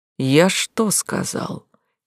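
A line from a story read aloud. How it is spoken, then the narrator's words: Quiet man's voice. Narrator (Russian): Тихо проговорил удерживающий ее мужчина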